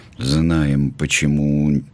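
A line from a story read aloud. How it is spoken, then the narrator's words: Uncertain joke. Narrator (Russian): неуверенно пошутил Костик-барабанщик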